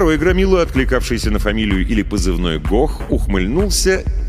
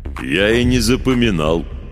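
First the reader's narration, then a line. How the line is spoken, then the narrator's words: Deep booming bass. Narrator (Russian): низким басом прогудел Гох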